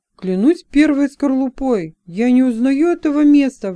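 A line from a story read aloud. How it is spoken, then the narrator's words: Astonished exclamation. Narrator (Russian): воскликнул пораженный Алдай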